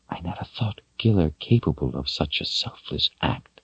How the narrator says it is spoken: Kaelin whispered

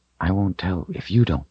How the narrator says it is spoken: he whispered

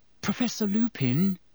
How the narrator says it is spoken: said Hermione timidly

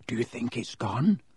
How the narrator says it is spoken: Harry whispered

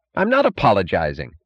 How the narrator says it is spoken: snapped Mooch

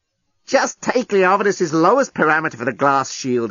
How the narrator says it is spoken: he snapped

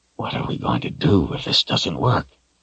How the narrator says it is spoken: Chase leaned closer and whispered

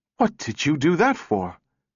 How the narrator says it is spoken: Powell gasped

